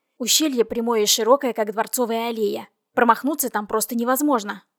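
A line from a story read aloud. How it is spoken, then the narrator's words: Grumbled. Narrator (Russian): буркнул Вейзель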